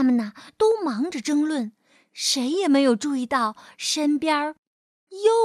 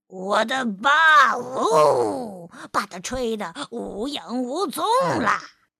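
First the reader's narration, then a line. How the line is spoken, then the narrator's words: Elephant roaring. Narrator (Chinese): 大象大吼着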